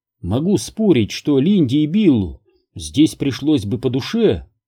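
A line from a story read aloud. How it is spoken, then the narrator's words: Plain. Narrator (Russian): сказала Элен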